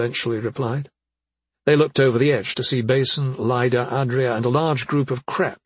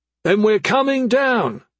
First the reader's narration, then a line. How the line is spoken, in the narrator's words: Desil hollered back